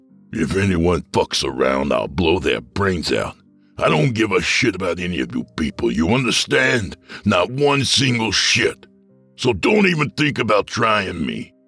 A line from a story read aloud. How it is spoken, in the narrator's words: growled